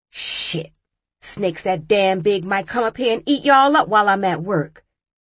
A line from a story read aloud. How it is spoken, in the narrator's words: she said